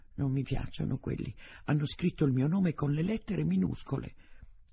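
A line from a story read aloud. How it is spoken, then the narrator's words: Quiet declaration. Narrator (Italian): Dichiarò sottovoce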